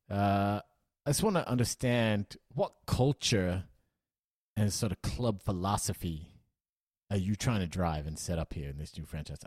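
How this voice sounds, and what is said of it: Weird put-on American accent. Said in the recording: “talking in a sort of weird American accent”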